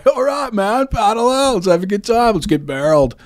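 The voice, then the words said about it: Laid-back surfer dude accent. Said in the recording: “Great accent, dude. ... Is that how they talk? ... Yeah, exactly.”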